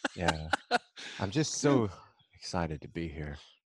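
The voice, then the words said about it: NPR radio DJ voice. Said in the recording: “that's my NPR ... in that voice ... You really do sound like a DJ on National Public Radio”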